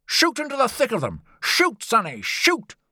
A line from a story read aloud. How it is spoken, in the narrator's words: Lord John cried